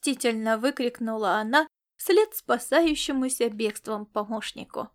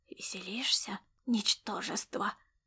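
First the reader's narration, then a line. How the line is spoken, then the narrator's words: Menacing hiss. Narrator (Russian): прошипел его неотвязный мучитель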